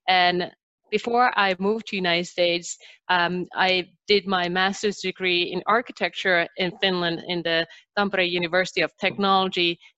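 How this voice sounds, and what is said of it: Slight Finnish accent in English. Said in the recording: “people can probably already hear that I have a little bit of an accent. So I'm originally from Finland”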